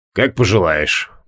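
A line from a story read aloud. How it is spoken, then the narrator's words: Grumbled. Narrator (Russian): буркнул Криол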